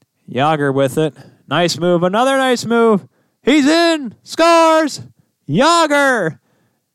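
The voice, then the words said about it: Bob Cole play-by-play impression. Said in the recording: “my Bob Cole impression”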